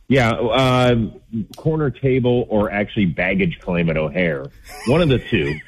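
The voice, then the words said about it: Loud, raised speaking voice. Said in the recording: “raising my voice so much”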